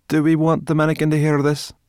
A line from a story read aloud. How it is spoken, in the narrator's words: Ben groaned